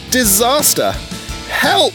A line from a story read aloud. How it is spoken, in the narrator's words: yelled Myro, his engine spluttering in sudden fright